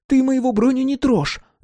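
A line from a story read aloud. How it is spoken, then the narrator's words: Shrill screaming. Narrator (Russian): визгливо заорала она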